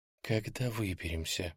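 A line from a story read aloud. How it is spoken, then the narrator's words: Whisper. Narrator (Russian): прошептала Ёнка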